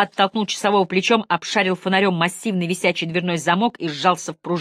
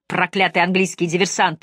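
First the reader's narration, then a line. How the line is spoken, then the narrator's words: Angry cursing. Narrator (Russian): злобно выругался Мэлори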